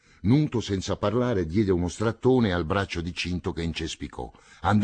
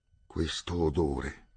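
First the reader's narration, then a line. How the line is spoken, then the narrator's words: Muttered. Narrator (Italian): borbottò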